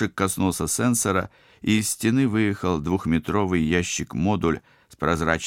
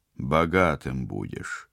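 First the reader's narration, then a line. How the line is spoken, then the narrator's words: Mutter. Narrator (Russian): пробормотал Вадим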